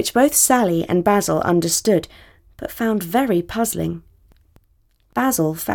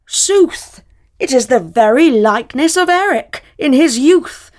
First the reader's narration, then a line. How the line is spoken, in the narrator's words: a man, a great hulking man, with a red beard and a gold embroidered tunic, came rolling towards them and called out